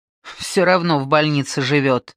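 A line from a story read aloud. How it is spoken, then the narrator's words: Snorting grunt. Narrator (Russian): хмыкнула Виктория Васильевна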